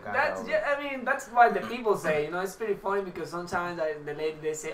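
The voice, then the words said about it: Strong Venezuelan Spanish accent. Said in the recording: “You got a very strong accent. ... Yeah, you're from Venezuela.”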